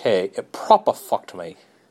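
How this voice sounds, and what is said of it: Put-on British accent. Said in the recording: “as they say in the UK ... In that fucking accent.”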